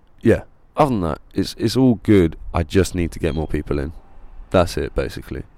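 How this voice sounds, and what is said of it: Slightly strained, fading voice. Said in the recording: “I'm losing my voice a little bit”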